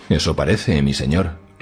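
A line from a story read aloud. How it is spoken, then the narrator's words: Curt reply. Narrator (Spanish): replicó Hogan Mares con tono cortante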